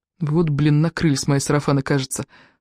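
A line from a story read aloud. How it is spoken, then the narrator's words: Whispered curse. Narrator (Russian): шепотом выругался Колдунов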